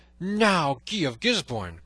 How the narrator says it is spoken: cried he

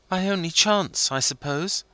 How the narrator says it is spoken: said Wilding, looking sadly

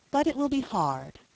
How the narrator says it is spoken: she added with a sigh

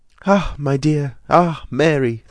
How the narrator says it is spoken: they suddenly exclaimed, and then laughed

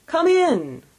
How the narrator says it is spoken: exclaimed the ghost

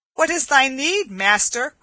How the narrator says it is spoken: cried Will Stutely

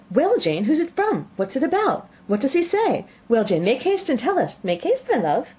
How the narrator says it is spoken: Bennet's eyes sparkled with pleasure, she was eagerly calling out

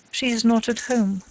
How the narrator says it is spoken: said T

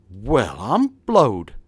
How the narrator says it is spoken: exclaimed he

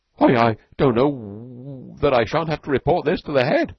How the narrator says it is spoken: he stammered

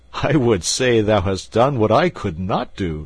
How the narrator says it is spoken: said the king, laughing

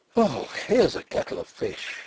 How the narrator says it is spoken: I groaned

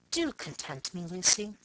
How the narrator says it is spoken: Leaning towards me coaxingly, he said softly

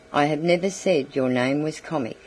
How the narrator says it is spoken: he replied coldly

